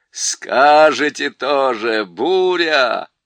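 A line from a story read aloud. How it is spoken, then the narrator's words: Roaring. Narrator (Russian): проревел он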